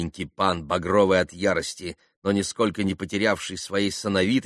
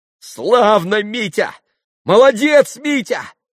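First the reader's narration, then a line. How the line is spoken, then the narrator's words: Spiteful, ringing shout. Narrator (Russian): крикнула Грушенька, и страшно злобная нотка прозвенела в ее восклицании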